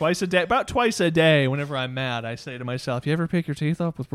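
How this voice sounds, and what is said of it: Usual voice. Nothing is said of it.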